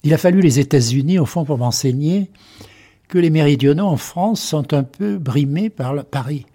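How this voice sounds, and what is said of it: Slight regional French accent. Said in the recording (French): “un tout petit peu d'accent ... Un petit peu d'accent, oui, oui, oui, oui. Un petit peu d'accent.”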